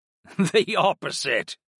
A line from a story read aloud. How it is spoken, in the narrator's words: Headmaster Sleet chuckled